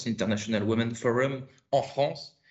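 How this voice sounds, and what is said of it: Atrocious English accent. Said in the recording (French): “mon accent atroce”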